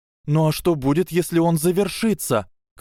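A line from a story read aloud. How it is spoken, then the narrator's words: Exasperated shout. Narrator (Russian): крикнула Гермиона, которая как никогда была близка к полному закипанию мозга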